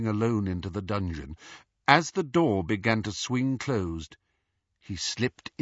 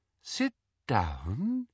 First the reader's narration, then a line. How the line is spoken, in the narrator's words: said Umbridge in her soft, silky voice